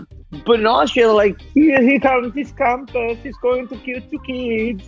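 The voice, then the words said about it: Failed attempt at Austrian accent. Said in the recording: “that was not my Austrian accent. That was terrible.”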